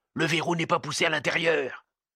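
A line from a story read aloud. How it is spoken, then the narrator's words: Barely audible murmur. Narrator (French): Ce murmure, parce qu'il était à peine perceptible dans le grand silence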